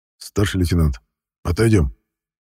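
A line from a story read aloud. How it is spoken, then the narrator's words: Quiet call. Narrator (Russian): Негромко позвал Клинкина майор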